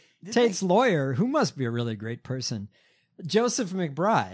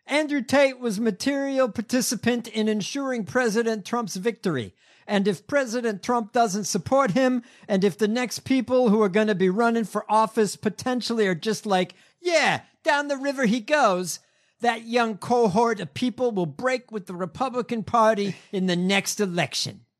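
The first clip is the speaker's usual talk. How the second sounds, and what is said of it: Put-on New York accent. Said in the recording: “I'm going to give him a New York accent.”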